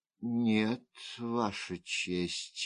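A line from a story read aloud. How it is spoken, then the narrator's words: Sigh. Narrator (Russian): вздохнула госпожа Го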